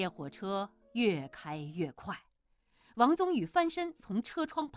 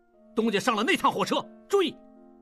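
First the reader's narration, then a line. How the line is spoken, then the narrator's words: Loud shout. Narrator (Chinese): 王宗宇大喊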